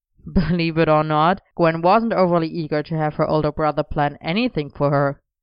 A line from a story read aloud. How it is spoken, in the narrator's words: Elian said wryly